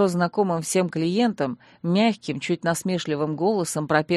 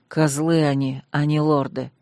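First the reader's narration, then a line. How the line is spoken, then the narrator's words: Hateful, through teeth. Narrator (Russian): с ненавистью процедил Сангирд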